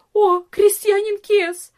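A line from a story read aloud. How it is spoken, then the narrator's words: Cry, servant girl. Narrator (Russian): вскрикнула одна из служанок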